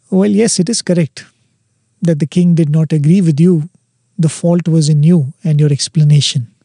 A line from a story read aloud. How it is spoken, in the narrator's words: very coolly and calmly says